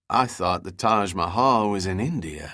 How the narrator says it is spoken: said

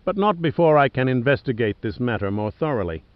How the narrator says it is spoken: Merchant said almost cheerfully

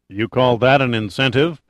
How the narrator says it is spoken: Pitt said dryly

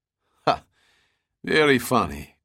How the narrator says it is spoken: Korsov laughed

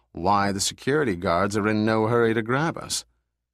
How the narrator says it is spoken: said Giordino calmly

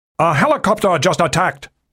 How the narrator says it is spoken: the captain of the rapidly sinking harbor police boat shouted into a portable radio

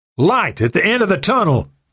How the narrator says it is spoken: Murphy shouted

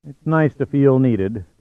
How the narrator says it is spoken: Giordino said wearily

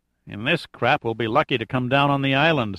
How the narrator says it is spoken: some malcontent muttered

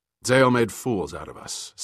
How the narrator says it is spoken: said Sandecker curtly

